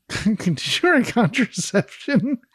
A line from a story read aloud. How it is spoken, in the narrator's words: shouting